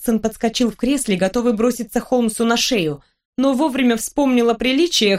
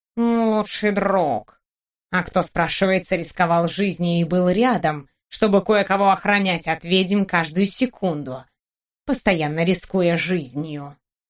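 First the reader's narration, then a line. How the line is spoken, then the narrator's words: Snorting mutter. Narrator (Russian): Кот фыркнул, пробормотав под нос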